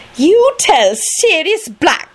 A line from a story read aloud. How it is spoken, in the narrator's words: she replied haughtily